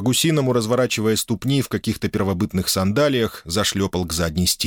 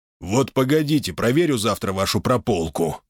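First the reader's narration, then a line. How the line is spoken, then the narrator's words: Grumbling. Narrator (Russian): проворчал он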